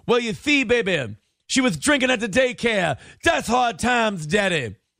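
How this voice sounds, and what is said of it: Imitates another person's voice. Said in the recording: “Did they text in that impression? Did he just tell us that somebody texted in that impression?”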